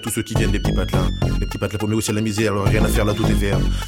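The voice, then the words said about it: Slightly mixed Picard accent. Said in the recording (French): “l'accent picard ... il était un peu matiné, son accent”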